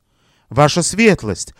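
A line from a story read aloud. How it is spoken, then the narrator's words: Embarrassed mumble. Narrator (Russian): смущенно пробормотала она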